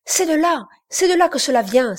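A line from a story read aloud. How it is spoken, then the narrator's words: Exclaimed. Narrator (French): s'écria Brian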